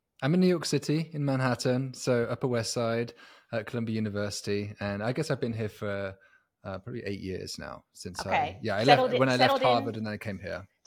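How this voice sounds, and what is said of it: British accent. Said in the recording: “A New Yorker with a British accent ... being a British accent on Upper West Side”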